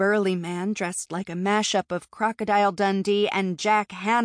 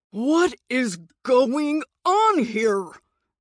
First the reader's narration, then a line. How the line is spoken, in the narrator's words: The man's voice boomed